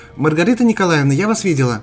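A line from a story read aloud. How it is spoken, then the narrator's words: Shouting. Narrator (Russian): крикнула Мария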